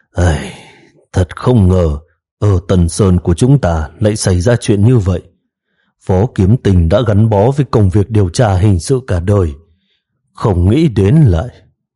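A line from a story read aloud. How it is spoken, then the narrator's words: Heavy sigh. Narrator (Vietnamese): Phùng Tiêu ở phía sau thở dài nặng nề, nói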